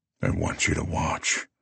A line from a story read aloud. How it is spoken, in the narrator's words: I murmur in her ear